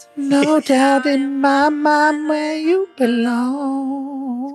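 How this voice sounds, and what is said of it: Singing in falsetto. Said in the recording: “Got a nice voice with his falsetto.”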